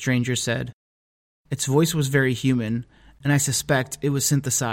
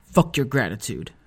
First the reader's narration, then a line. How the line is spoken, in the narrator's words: I said bitterly